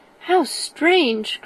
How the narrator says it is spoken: cried Elizabeth

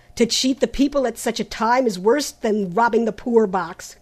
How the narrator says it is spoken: cried Trent angrily

